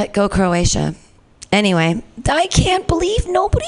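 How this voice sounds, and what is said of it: Usual voice. Nothing is said of it.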